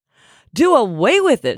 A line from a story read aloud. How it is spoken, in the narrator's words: shrieked